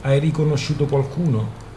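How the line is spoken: Plain question. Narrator (Italian): chiese Doc

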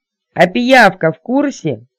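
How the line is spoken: Terrified shout. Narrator (Russian): крикнула ворона, с ужасом

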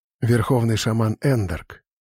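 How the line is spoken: Whispering. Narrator (Russian): шепнул мне Сантор

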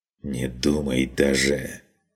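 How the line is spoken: Hissed. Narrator (Russian): прошипел тот

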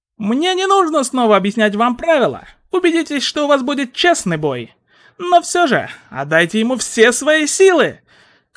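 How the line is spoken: Shouted. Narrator (Russian): крикнул Сущий Миг

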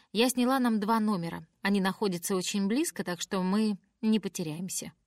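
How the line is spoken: Plain, grandmother. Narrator (Russian): говорит бабушка

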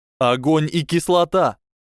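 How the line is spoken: Shouting. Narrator (Russian): крикнул Гарри

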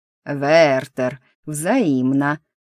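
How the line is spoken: Spoken through teeth. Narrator (Russian): процедил Дит

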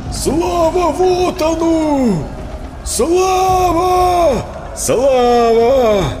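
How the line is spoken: Distant shouting. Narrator (Russian): орали где-то вдали

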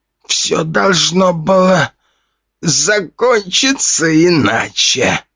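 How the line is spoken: Dying old man's wheeze. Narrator (Russian): хрипел старик, истекая практически черной кровью

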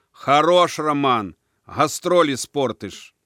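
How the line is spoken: Shout. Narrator (Russian): крикнул

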